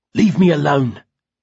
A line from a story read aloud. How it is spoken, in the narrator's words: Simon spat, choking on his tears, and hating Basil even more than usual